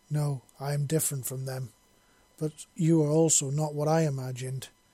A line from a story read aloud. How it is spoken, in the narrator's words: replied rather wearily